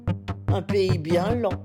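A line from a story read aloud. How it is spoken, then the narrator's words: Plain. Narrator (French): dit la reine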